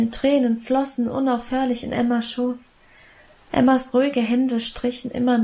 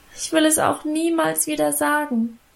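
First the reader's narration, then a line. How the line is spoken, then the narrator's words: Continued whining. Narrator (German): jammerte ich weiter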